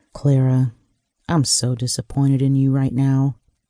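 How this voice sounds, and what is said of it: Low voice. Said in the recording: “he said in a low voice.”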